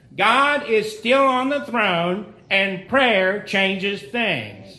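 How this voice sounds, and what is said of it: Impression of Noah Hutchings. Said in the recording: “Noah Hutchings on Southwest Radio Church used to always say it... That's my imitation... He does it just perfectly.”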